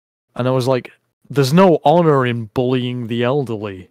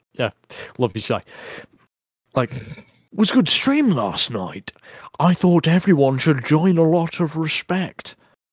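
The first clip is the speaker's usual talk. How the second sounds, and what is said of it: Posh voice impression. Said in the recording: “I'll try and do an impression of him, it's just some posh cunt.”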